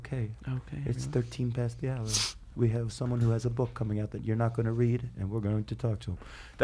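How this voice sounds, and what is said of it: Imitates a public radio host's voice. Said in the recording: “my NPR impression”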